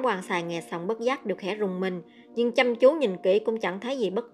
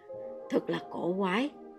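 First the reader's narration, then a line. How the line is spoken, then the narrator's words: Sudden sigh. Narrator (Vietnamese): Đại hán đột nhiên thở dài một hơi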